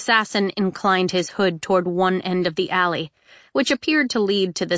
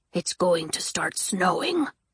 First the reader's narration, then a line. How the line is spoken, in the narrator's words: the assassin grunted